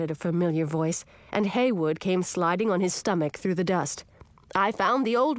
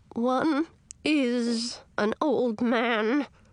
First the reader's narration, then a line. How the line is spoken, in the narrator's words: grumbled Edric, his voice as creaky as rusty armor